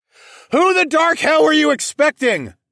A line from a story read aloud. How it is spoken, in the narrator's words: I hollered back